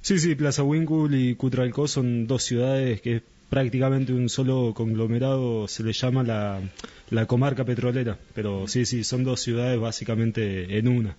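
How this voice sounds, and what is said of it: Deep, polished announcer-like voice. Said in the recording (Spanish): “voz de locutor”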